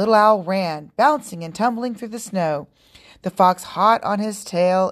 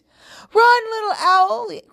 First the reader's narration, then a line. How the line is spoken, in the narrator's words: cried the animals from their hiding place